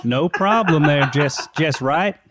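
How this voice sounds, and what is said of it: Put-on Southern Texan accent. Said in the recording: “Do like Texas or something, like Southern. ... I can do a Texan accent. ... That's quite good.”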